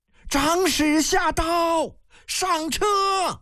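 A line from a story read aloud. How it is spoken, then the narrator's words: Distant shrill shout. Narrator (Chinese): 身后遥遥一声尖亮的呼喊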